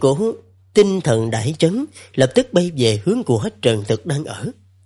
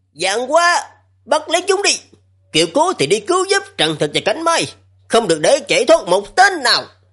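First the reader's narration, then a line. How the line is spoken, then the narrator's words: Raised voice. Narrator (Vietnamese): Lão què cao giọng nói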